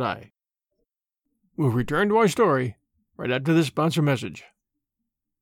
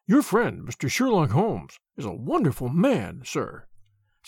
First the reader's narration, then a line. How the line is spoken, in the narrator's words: said he in a husky and confidential voice